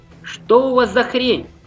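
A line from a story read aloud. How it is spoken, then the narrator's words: Shout. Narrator (Russian): выкрикнул он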